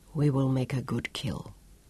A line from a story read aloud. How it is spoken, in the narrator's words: Alfonso said quietly